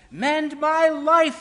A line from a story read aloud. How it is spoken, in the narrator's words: each voice cried